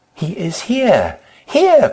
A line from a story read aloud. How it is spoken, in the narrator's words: cried the mother